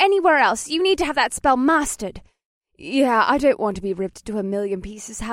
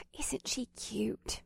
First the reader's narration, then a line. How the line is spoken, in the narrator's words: Alyssa whispered to Mahini